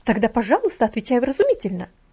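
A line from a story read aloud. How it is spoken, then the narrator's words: Exclaiming. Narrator (Russian): воскликнула гувернантка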